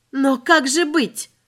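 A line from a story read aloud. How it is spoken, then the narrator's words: Desperate exclamation. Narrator (Russian): воскликнула женщина, заламывая руки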